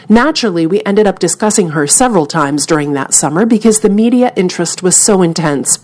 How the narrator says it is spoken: Payne said

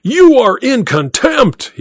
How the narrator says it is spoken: he roared

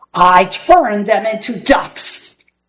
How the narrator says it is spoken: bellowed Gasazi

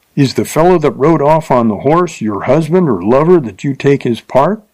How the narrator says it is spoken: asked Bill, half angrily and half wondering at the temerity of the lovely girl who thus braved his anger

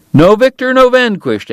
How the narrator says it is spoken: Eddie cried

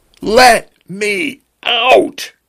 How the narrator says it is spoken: he screamed

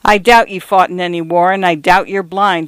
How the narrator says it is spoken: he cried

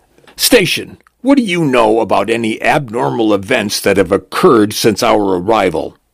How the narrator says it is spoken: A tall, thin woman barks

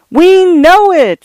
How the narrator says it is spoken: screamed the studio visitors, heated by coke and awe

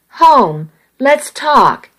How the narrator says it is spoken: he pleaded

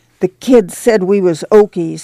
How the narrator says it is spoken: he said in an outraged voice

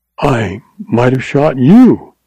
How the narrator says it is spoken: she exclaimed

